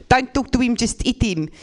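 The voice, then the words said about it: Put-on South African accent. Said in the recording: “The only African accent I'm technically allowed to do is South African... which I don't like this accent... It's basically a mixture of Dutch and racism... It's very unsexy.”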